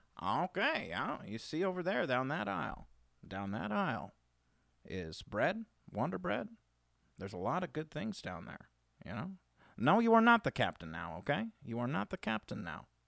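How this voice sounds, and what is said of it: Imitates another person's voice. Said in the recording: “I feel like that was your Morgan Freeman impression. ... I was going to say that last one was like Bad Obama.”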